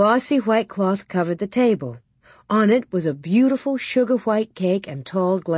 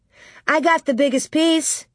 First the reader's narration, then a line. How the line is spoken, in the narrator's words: Nellie shouted